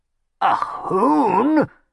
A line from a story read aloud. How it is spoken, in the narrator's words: croaked Chimwassel, appalled